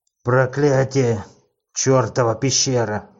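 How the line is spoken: Furious growl. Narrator (Russian): в ярости зарычал Ред

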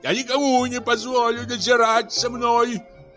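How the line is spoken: Shouting. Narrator (Russian): кричал

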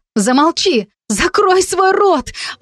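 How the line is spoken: Desperate cry. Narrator (Russian): отчаянно выкрикнула

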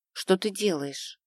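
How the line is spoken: Whisper in ear. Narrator (Russian): шепнула мне на ухо подзащитная

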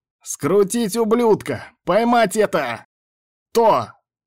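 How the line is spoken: Yelling. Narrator (Russian): Орал Тибальд

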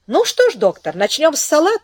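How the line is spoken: Cheerful question. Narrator (Russian): весело спросил Пико

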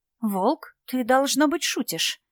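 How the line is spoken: Barely audible whisper. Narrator (Russian): еле слышно прошептала Молли

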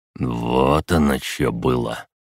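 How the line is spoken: Wry snort. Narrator (Russian): Седов хмыкнул

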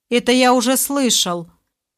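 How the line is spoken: Rude interruption. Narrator (Russian): довольно грубо оборвал рассказ башка узник

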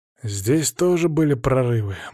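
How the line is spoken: Gloomy. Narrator (Russian): мрачно проговорил Чернов

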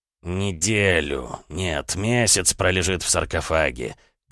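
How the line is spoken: Through clenched teeth. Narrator (Russian): процедил сквозь стиснутые зубы Висконти

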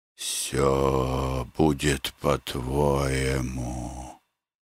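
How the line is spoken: Hollow whisper. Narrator (Russian): глухо прошептал он

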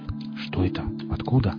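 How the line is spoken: Muttering. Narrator (Russian): пробормотал Винт

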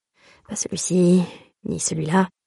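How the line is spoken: Muttered in own language. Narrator (French): marmonne-t-il dans sa propre langue

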